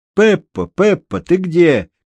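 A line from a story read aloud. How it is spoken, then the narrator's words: Shouted. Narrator (Russian): крикнул, вбегая в сени Паскуале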